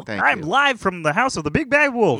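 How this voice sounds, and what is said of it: Kermit the Frog impression. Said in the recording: “to do a Kermit the Frog impression ... Nope. Tom's was better.”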